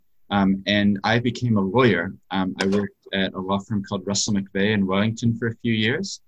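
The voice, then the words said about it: New Zealand accent. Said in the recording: “people hear me when I speak, that I have an accent. So I actually grew up in New Zealand”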